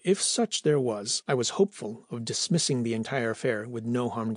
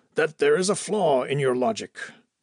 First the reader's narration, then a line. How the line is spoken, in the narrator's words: I shouted